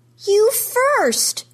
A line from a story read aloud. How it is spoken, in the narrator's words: she yells